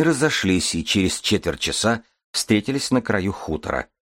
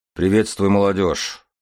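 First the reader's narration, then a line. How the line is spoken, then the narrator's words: Gruff grumble. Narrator (Russian): буркнул вечно хмурый Малх, старшина хутора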